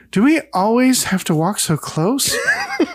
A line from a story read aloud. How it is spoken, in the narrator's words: laugh and say together